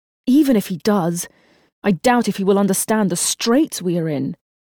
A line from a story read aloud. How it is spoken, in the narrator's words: Jeremy said angrily